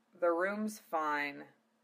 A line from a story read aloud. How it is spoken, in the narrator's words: Zell muttered